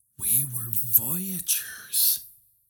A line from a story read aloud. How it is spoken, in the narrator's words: whispered in awe